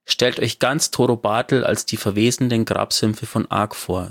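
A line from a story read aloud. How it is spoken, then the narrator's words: Plain. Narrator (German): sagte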